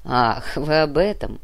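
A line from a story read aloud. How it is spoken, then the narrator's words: Laughing. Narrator (Russian): Калека рассмеялся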